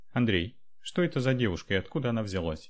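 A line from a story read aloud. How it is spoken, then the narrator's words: Cold question. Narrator (Russian): холодно спросила Анра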